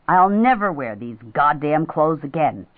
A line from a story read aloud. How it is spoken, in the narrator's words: she said angrily